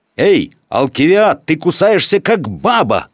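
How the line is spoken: Shouted. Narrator (Russian): крикнули ему

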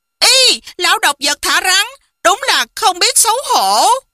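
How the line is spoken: Exclaimed. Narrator (Vietnamese): Hoàng Dung kêu lên

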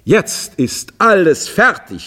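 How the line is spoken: Calling out. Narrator (German): rief er endlich

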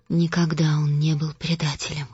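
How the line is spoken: Quiet, flat voice. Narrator (Russian): тихо и бесцветно проговорила Костелла

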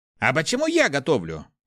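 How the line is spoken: Indignant. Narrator (Russian): возмущенно произнес Руди

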